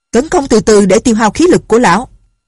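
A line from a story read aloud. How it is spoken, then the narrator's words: Shouted order. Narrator (Vietnamese): Tên thủ lĩnh của ma giáo quát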